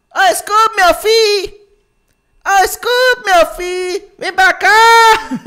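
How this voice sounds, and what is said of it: Cartoon character dub voice. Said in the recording (Portuguese): “imitando desenho ... imita um aí”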